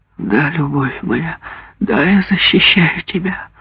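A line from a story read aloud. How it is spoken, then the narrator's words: Dejected voice. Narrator (Russian): упавшим голосом ответила мать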